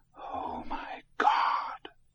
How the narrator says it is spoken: Morris Heisel whispered

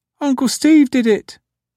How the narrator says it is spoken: the little girl piped up

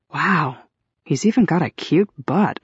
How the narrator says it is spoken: I murmured aloud

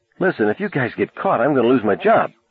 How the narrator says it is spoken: Sandy said nervously

